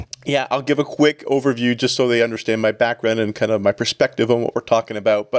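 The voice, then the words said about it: Canadian English accent. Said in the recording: “I was a producer and reporter for a national station in Toronto, Ontario. You might pick up some of the accent.”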